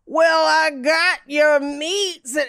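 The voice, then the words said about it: Exaggerated crazy accent. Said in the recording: “he's got a crazy accent”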